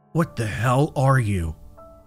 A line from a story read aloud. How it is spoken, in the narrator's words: He breathed, his voice trembling